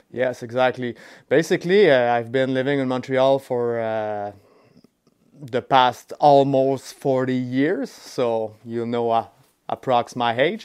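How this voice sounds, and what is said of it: French Canadian accent. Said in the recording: “am I detecting by your accent that you're French? ... Are you like a lifelong Montrealer?”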